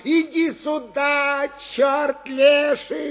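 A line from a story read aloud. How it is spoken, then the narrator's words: Boy shouting with gleeful anger. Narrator (Russian): Голос мальчика тотчас с радостным озлоблением закричал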